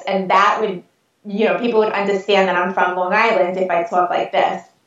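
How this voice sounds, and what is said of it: Thick South Shore Long Island accent. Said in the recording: “if I was from the South Shore, I would sound more like this ... we don't have as thick of an accent”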